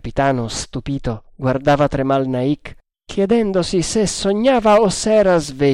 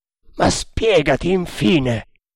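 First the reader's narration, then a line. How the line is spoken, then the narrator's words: Exclaimed. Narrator (Italian): esclamò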